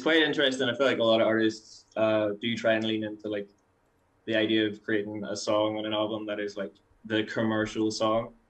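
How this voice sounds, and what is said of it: Irish accent. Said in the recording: “an Irish accent.”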